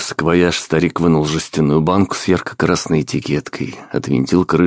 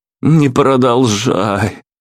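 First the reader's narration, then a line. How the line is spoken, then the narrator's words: Pleading. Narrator (Russian): взмолился я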